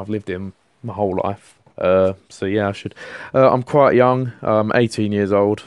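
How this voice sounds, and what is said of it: London accent. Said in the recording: “I'm from London, as you can tell from my voice. Hopefully, I've got the London accent.”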